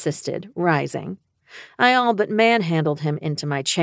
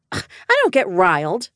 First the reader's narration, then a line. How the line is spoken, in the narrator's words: I scoffed